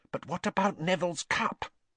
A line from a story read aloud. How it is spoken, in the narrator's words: Lavender whispered